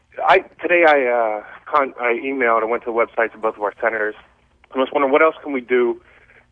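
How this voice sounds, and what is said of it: Breathless, out-of-breath speech. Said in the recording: “I'm running after my kids here ... I'm running out of breath.”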